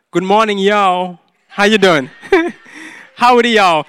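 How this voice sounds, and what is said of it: Put-on Southern US accent. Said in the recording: “speak southern. So this is my attempt of speaking southern.”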